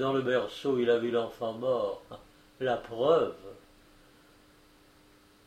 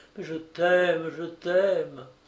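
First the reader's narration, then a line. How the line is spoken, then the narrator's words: Pleading murmur. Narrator (French): implore, murmure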